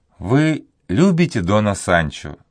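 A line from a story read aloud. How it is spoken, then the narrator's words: Plain. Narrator (Russian): сказала она ему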